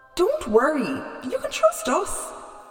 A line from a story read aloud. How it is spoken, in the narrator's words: laughed Epimetheus